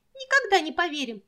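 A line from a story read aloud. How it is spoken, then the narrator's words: Squeaky. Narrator (Russian): пищала Сонечка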